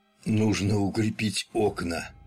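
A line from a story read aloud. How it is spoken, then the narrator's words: Hoarse. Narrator (Russian): хрипло произнес он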